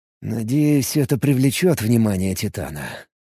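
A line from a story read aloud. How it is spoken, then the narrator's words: Muttered. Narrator (Russian): пробормотал Алекс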